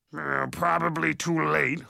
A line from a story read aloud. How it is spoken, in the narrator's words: Hogsqueal grunted